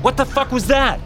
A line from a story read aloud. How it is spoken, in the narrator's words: yelled